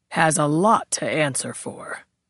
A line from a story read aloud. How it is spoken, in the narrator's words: the captain intoned